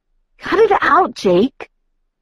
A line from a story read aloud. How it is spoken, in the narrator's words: I gasped breathlessly